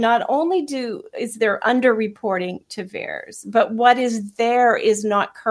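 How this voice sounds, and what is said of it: Usual voice. Nothing is said of it.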